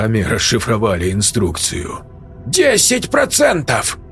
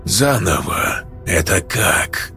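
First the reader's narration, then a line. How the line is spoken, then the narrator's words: Suddenly dangerous voice. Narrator (Russian): стал вдруг опасным голос Берга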